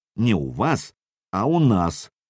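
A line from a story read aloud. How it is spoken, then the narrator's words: Stern correction, young prince. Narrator (Russian): строго поправил Сергея княжич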